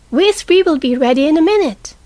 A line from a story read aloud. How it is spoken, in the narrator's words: cried Amy